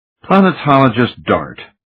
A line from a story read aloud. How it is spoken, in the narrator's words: he sighed